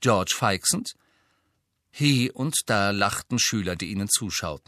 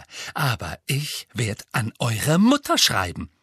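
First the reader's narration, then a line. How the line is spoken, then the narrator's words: Voice trembling with anger. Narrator (German): sagte sie mit zornbebender Stimme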